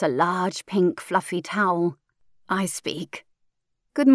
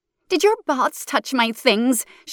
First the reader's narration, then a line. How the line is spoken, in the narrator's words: She shouts